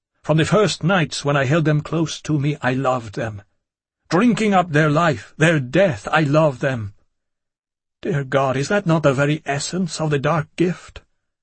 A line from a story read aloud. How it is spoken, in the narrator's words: My voice was growing in volume as it had that night in the theatre